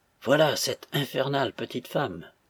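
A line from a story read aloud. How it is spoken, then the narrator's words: Quiet inner thought. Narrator (French): pensa-t-il tout bas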